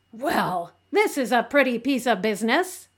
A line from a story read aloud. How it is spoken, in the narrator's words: exclaimed Marilla